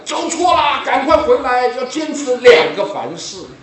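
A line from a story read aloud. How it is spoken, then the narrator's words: Sudden shout. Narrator (Chinese): 他突然在后面喊起来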